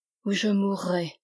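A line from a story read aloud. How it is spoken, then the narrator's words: Murmured in shadow. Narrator (French): murmure ces mots dans l'ombre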